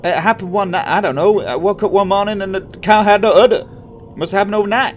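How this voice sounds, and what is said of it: Attempted Tennessee accent. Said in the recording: “my accent is just the same. It's probably not a Tennessee accent either, but there we go. That's the accent everyone's getting.”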